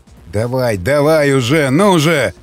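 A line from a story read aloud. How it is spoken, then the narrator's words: Growling. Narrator (Russian): рычал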